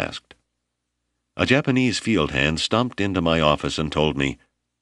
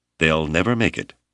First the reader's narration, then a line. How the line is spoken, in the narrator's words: Hale said firmly